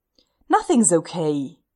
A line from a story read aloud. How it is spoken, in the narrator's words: Stiles snaps